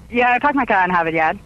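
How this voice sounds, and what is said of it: Thick Boston accent, dropped R's. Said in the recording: “You kind of have that Boston accent. ... my accent is so thick ... because I drop my R's.”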